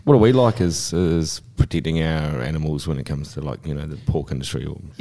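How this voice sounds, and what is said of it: Slight New Zealand accent. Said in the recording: “I've obviously got a bit of a Kiwi accent”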